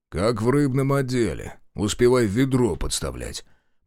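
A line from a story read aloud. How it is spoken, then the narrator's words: Deep bass voice. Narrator (Russian): пробасил Шестаков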